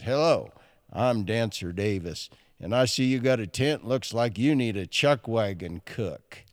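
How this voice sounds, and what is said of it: Imitated radio voice. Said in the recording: “That's how he talked. He had that voice ... a radio voice.”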